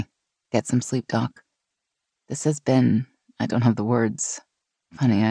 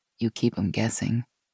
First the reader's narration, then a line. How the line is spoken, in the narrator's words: Gina said softly